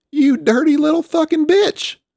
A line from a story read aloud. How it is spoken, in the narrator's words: Samael wailed ... continued coughing up a bit of liquid